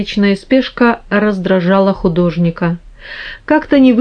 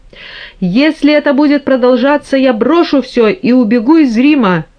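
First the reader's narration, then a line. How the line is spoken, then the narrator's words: Furious, exasperated shout. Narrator (Russian): крикнул Микеланджело, выведенный из себя неистовым стуком в дверь и окриками папы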